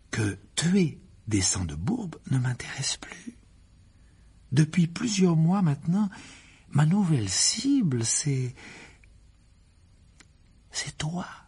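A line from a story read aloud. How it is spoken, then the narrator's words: Calm voice. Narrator (French): reprit Gédusor d'une voix tranquille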